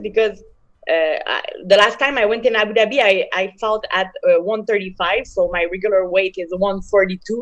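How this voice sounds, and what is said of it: Strong French accent. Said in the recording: “my uh, big uh, French accent”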